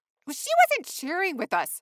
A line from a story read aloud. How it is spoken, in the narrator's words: hollered Pippi